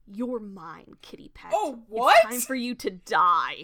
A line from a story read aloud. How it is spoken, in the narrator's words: Darkstar whirls to face him, hissing